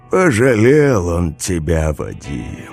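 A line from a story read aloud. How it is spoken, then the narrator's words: Sighing. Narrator (Russian): вздохнул Дед Мороз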